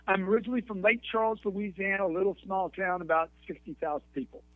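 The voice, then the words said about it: Slight Louisiana accent. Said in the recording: “I always hear the accent. You got a little bit of that accent in there. ... a little bit of Louisiana”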